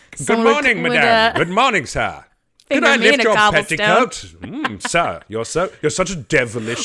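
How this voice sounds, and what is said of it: Mock posh old-fashioned accent. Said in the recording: “You can't make something sound posh just by putting an accent on it.”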